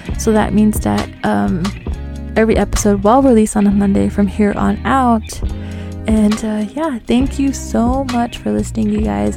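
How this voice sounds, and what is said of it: Lisp with reservation accent. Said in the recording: “See what I mean? My lisp and my overbite is annoying as fuck. ... I hope my res accent wasn't too res for you.”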